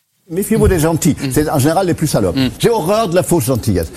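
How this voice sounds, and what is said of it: German accent in French. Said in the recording (French): “accent très reconnaissable ... Accent allemand.”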